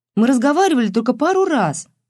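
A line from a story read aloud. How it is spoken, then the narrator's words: Exclamation. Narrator (Russian): воскликнула Матильда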